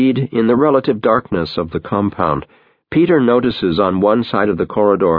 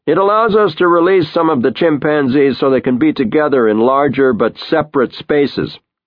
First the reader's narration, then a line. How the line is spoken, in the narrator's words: Bob shouts back